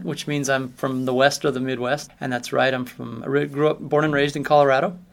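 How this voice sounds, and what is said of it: Very flat American accent. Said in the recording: “originally from the United States, which you can probably hear in my accent ... I have kind of the very flat American accent”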